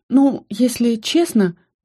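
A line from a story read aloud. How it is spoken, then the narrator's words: Hesitant beginning. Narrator (Russian): неуверенно начала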